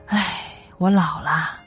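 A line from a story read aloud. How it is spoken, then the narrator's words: Girl, long sigh. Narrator (Chinese): 这个小姑娘就长叹了一声，说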